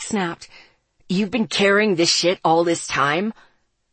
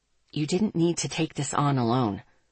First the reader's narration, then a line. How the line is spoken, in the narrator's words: Miles said softly